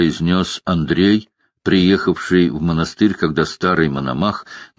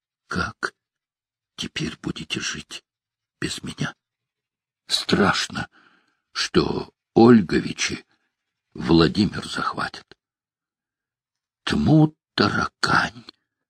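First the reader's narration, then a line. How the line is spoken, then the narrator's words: Labored whisper, father. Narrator (Russian): Отец сберегая трудное дыхание, шептал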